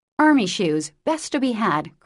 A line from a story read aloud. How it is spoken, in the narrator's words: cried Jo